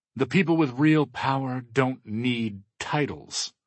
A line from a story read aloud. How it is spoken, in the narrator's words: Todd sneers